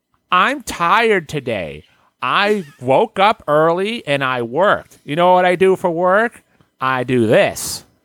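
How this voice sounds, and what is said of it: Imitates another person's voice. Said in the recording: “My voice sounds like a shitty Gilbert Godfrey.”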